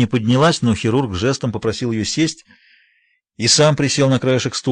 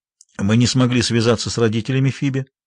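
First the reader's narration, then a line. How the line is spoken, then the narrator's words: Dry. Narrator (Russian): сухо произнес он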